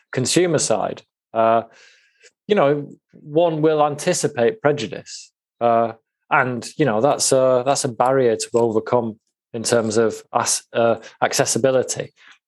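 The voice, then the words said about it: Northern English accent. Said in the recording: “apart from having a northern accent”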